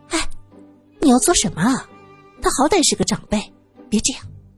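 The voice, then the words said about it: Quiet, hushed speech. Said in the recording (Chinese): “小声说”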